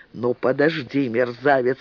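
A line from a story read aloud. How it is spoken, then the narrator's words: Angry growl. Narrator (Russian): рычал Борецкий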